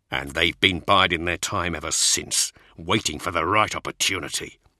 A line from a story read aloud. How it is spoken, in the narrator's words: Cole snarled